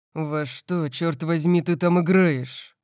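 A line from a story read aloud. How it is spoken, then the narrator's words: Growled. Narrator (Russian): зарычал Орион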